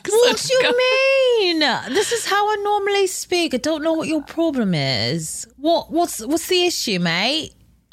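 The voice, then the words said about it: Exaggerated, poor fake English accent. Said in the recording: “She has to morph into the world's stupidest fucking English accent. ... You are actually getting a bit better. But it's still fucking horrifying. It's like you're talking in English with marbles in your mouth.”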